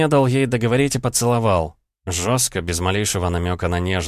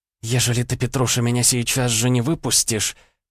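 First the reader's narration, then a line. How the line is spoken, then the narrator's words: Whispered reply. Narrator (Russian): прошептала в ответ Варя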